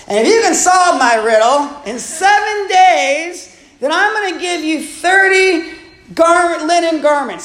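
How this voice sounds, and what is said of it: Slurred drunk voice. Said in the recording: “my Barney Fife drunk voice ... I'm gonna do my drunk voice.”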